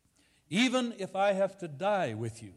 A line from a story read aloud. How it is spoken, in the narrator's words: he said